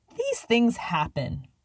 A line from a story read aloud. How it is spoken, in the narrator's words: Elsie scoffed